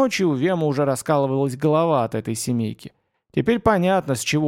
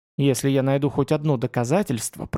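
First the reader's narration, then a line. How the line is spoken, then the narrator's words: Whisper. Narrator (Russian): прошептал Вем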